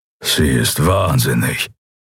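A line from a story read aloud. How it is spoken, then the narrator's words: Warrior's grumble. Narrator (German): brummte der Schattenskrieger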